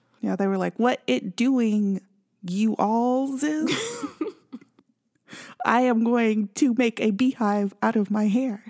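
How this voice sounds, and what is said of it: Mock Russian-accented imitation. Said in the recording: “Russian bot impersonation... Russian accent”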